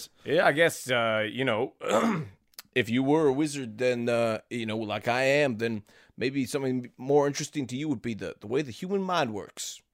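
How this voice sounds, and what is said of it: Slight Southern accent slipping through. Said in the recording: “I feel like my accent's changed a little bit. I'm betraying a little bit of my southern roots suddenly.”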